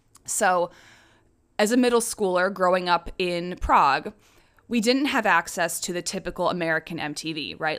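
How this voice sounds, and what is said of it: American-accented English. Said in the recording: “Despite the accent and the Americanness in my voice that you probably hear”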